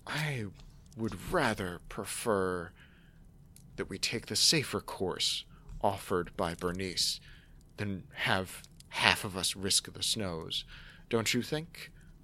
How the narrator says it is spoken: in a low voice

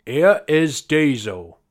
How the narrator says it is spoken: he said

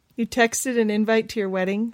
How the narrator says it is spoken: Stephanie chuckled

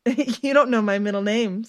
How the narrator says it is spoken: Stephanie giggled

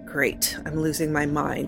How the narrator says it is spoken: mumbled

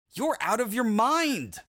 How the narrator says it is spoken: Clay began to yell

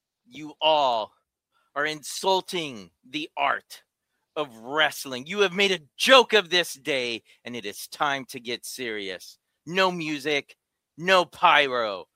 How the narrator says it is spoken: over the PA, a voice shouts out

